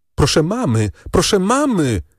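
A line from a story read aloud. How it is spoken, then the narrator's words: Calling out. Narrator (Polish): zawołała Valentin macochę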